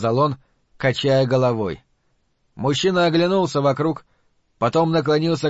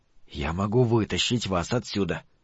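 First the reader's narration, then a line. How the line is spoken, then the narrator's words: Whispered. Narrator (Russian): прошептал он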